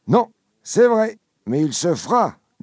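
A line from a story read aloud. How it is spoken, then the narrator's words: Drunken slurred voice. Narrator (French): dit Caderousse d'une voix pâteuse, car il en est au moins à son 8e verre de vin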